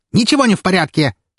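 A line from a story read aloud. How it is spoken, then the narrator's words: Loud sharp bark. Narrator (Russian): рявкнула она так, что ее супруг чуть не съежился в кресле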